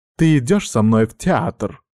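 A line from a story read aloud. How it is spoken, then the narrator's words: Sudden loud snort. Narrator (Russian): вдруг громко фыркнула Ханака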